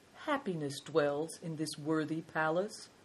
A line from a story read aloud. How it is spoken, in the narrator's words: said Big Tiger calmly